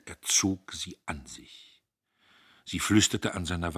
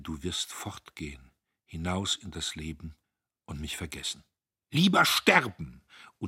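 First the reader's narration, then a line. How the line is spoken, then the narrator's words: Murmured. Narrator (German): murmelte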